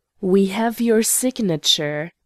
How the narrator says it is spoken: growled the old man

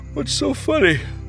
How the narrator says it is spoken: the sound roused Hopeful, who rubbed his eyes and said

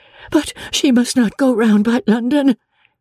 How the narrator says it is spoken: cried Marianne, in the same hurried manner

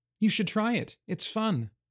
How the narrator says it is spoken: Mara said playfully

